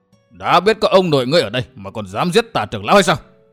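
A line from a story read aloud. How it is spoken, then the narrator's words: Barking shout. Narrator (Vietnamese): Lâm xương quát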